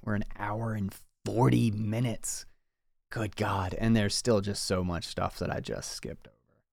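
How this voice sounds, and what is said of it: Slightly strained, fading voice. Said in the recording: “losing my voice a little bit”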